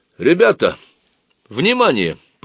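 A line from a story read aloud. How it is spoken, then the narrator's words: Confident loud proclamation. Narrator (Russian): провозгласил он уверенным громким голосом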